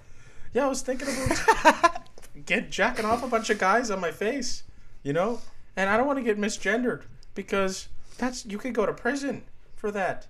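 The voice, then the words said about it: Imitates another person's voice. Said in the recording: “I'm trying to do a Jordan Peterson voice. ... I think I'm sort of close.”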